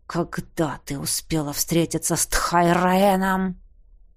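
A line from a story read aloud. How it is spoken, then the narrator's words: Growl. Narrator (Russian): прорычал он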